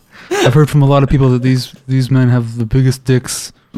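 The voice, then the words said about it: Imitates another person's voice. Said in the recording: “my Trump impression ... It's really good”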